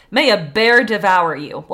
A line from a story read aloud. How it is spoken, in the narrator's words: a peasant became angry with his horse and cried out